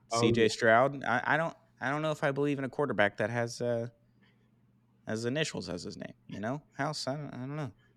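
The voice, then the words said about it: Imitates another person's voice. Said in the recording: “your Bill Simmons impression ... I think it's getting better, honestly”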